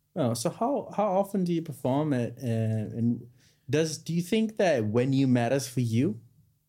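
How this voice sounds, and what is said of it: Non-native accent mixing V and W. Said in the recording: “It's the accent... it's the V&W's. Germans do that as well.”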